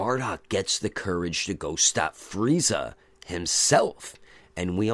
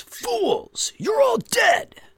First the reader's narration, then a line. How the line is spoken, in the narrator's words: shouts